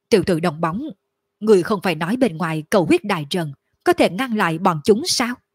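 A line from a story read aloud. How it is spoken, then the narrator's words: Nervous gruff voice. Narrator (Vietnamese): Lôi Hống trong lòng khẩn trương ồm ồm nói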